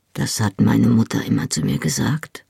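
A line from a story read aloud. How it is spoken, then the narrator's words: Murmur. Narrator (German): murmelte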